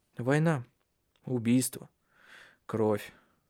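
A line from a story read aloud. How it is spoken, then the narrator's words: Sad. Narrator (Russian): печально произнес Тарья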